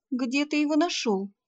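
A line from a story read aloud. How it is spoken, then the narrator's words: Breathless excited exclamation. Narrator (Russian): воскликнула я, задыхаясь от волнения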